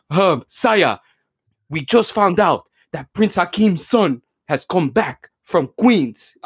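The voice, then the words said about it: Imitates a bad fake African accent. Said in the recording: “that man should never have a fake African accent ... He was like,”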